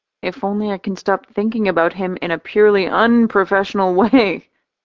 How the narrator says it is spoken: I giggle

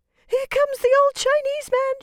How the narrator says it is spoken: shrieked the little shepherdess, she was in such despair

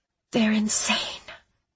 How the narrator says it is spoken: I breathed

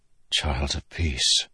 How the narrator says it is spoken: Kaladin whispered

